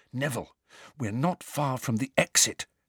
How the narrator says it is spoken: Harry whispered

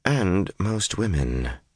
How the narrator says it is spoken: Shiriam replied coolly

